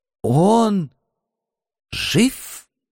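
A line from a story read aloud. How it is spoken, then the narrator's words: Strained hoarse hiss. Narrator (Russian): Кое-как прохрипел, прошипел, я даже не найду подходящего слова, Алекс Бор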